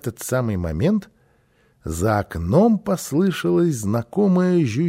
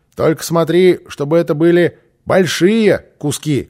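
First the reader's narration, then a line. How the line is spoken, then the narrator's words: Shouted. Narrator (Russian): крикнул Босса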